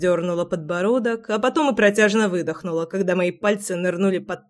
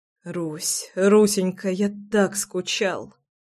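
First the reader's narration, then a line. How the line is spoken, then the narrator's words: Whispering between kisses. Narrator (Russian): шептал я между поцелуями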